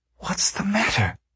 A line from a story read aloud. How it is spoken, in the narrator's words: whispered